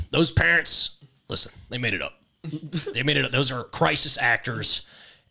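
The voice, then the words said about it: Imitates another person's voice. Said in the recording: “you do a pretty good Alex Jones impression.”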